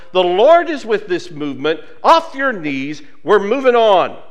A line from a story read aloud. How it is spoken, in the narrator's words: Reverend Charles Billups, one of the oldest leaders of the march, hollered